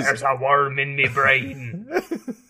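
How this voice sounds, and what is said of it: Put-on Jamaican accent, pirate-like. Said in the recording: “That's my best Jamaican accent. ... Middling. ... Your Jamaican accent is basically a pirate.”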